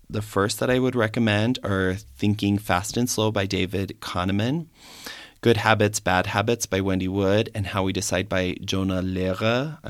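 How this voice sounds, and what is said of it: German accent. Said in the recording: “I know I'm saying that with a German accent”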